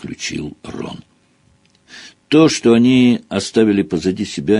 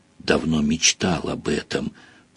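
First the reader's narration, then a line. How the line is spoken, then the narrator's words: Whispered in ear. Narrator (Russian): прошептал Рон в ухо Гарри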